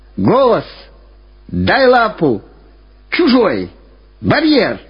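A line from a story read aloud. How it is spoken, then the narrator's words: Shouting repeatedly. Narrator (Russian): Все время кричал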